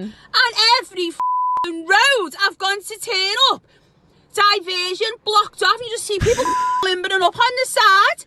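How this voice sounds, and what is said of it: Thick, hard-to-understand regional accent. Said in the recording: “This accent is obviously very difficult to decipher. ... It's a hard accent to understand.”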